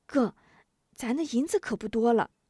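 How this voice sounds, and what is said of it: Quiet, hushed speech. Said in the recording (Chinese): “小声道”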